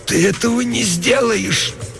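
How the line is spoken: Moaning hoarse rasp. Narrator (Russian): Она застонала чуть громче и прохрипела

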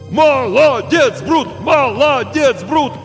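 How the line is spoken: Crowd shouting again. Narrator (Russian): снова закричали зрители

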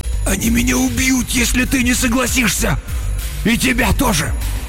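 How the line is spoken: Hoarse rasp. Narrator (Russian): Он прохрипел

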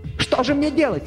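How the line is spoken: Wailing again. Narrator (Russian): снова завопил я

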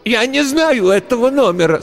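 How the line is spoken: Old woman's breaking shout. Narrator (Russian): срывающимся голосом выкрикнула старуха

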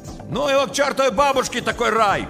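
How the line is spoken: Shouted from a car. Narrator (Russian): крикнул из машины Щербак

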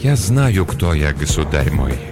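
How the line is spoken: Said softly. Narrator (Russian): мягко произнес Ланселот

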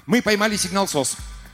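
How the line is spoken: Excited announcement. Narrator (Russian): взволнованно огласил он

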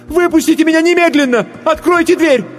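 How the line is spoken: Choked-up shout. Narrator (Russian): сглотнула тяжелый ком в горле и закричала

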